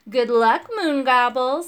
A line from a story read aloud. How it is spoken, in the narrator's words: said Fozwad with a nasty laugh